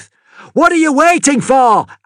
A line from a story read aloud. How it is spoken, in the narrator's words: Amity yelled